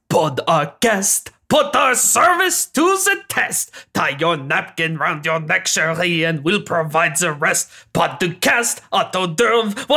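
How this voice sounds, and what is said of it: Singing in a bad French accent. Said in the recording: “The bad French accent really got away from me ... Bad French accent.”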